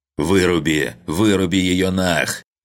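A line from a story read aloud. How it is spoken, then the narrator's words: Angry rasp. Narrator (Russian): Килл зло прохрипел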